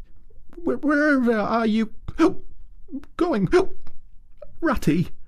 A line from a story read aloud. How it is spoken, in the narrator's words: cried the tearful Mole, looking up in alarm